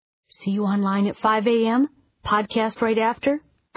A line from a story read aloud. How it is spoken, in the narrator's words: I asked